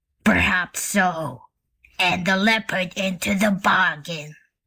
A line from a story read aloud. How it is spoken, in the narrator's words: growled the bear